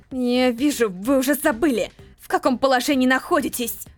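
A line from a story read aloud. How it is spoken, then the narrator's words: Through gritted teeth. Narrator (Russian): процедила Джибрил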